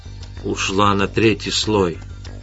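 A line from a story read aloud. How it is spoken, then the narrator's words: Whispered. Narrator (Russian): прошептал Эдгар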